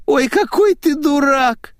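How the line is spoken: Moaning young woman. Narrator (Russian): простонала девушка

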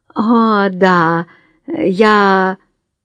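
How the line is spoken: Hoarse. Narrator (Russian): Она хрипло произнесла

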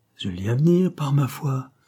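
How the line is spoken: Muttered through teeth. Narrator (French): grommela Maresco entre ses dents

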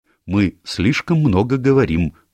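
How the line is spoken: Stern. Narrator (Russian): строго сказала миссис Оливер

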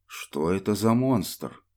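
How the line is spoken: Astonished mutter. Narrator (Russian): пробормотал пораженный Спинелл

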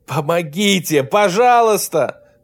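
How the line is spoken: Screaming again. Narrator (Russian): Снова закричал Берт

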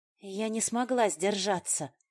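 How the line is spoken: Breathy exhale. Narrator (Russian): выдохнула

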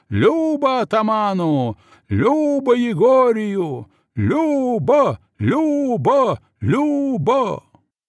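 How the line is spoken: Joyful crowd shouting. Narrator (Russian): те дружно и радостно заорали

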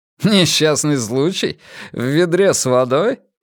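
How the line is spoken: Laughing. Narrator (Russian): Фредерик смеялся

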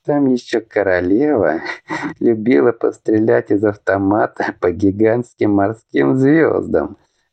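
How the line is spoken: Laughing. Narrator (Russian): Рассмеялся Лидор

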